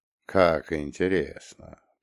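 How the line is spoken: Barely audible mutter. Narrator (Russian): пробормотал еле слышно, но недостаточно тихо

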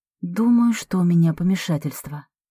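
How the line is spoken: Quiet. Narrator (Russian): тихо произношу я

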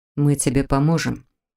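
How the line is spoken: Quiet, firm promise. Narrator (Russian): тихо, но внушительно пообещал Маркус

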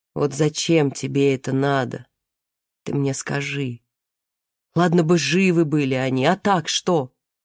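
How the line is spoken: Slow and sad. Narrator (Russian): мать продолжила так же медленно и печально

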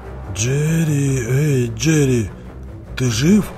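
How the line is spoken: Whispering. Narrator (Russian): шепнул Фредди

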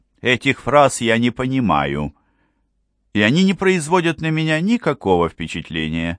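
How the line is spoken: Indifferent tone. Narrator (Russian): сказала она равнодушным тоном

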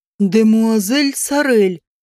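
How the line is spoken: Embarrassed mumble, young gosling. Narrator (Russian): промямлил гусеныш и смущенно умолк

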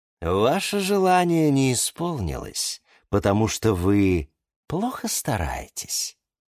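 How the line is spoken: Calm explanation. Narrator (Russian): спокойно объяснил Гиацинт Эдуард

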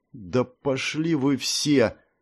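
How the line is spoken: Mutter. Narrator (Russian): пробормотала девушка

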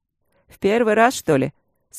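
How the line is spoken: Dry. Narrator (Russian): сухо сказал Макс

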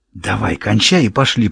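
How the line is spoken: Whisper. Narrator (Russian): прошептала Ребекка

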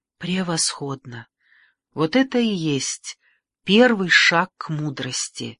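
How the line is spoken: Soft. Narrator (Russian): мягко сказал он

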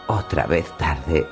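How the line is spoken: Murmured on hearing news. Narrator (Spanish): murmuró al enterarse

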